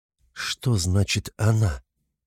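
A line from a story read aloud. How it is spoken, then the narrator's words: Whisper. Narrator (Russian): прошептала Соня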